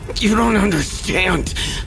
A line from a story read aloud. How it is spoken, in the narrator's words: he gasped, the fight draining from him